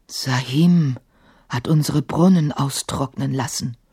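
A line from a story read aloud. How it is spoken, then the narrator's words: Low murmur, large servant. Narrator (German): raunte der riesige Diener Emma zu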